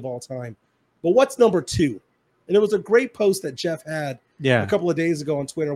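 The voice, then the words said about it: Voice much lower than usual. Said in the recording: “As you can tell by my voice, I'm about 2 octaves lower”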